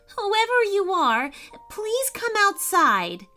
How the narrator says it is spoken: cried Maddie

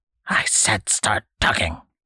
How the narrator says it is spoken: the old man hissed

